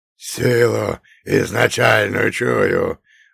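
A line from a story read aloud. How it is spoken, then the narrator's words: Roared again. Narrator (Russian): вновь проревела голова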